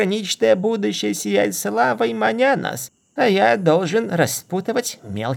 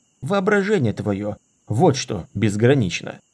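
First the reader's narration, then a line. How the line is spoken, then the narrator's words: Grumble. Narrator (Russian): буркнул Дорин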